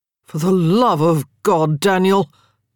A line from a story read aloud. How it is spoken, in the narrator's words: Marcus groaned